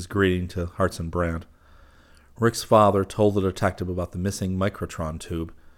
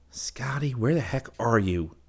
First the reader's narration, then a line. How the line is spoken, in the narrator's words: Rick muttered to himself